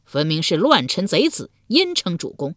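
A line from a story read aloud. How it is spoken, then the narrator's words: Mocking crowd. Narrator (Chinese): 众人讥笑道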